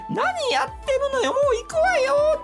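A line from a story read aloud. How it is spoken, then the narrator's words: Shrill high-pitched voice. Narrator (Japanese): ってやっぱり甲高い声で言うんですよ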